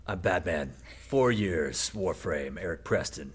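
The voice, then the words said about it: Gravelly Batman character voice. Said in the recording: “that in your Batman voice”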